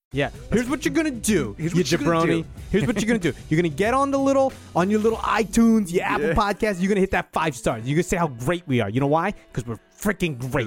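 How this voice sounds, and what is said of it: Tough-guy New York accent. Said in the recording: “What is this accent? Is your alpha male? ... Testosterone accent. ... Is there testosterone in New York's water? Is that why they all talk like that? ... that's how real men talk.”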